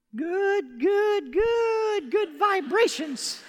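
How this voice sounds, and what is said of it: Sung in a weak falsetto. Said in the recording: “I know I need to work on my falsetto.”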